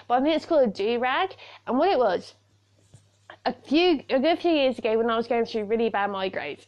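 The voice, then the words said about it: British accent. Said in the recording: “I'm a Brit ... you're listening to my accent right now”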